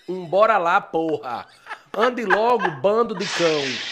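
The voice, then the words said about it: Exaggerated Bahian accent, teacher impression. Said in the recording (Portuguese): “Imitando o professor ... Eu comecei imitando a professora de português, que ela era baiana, um sotaque bem puxado”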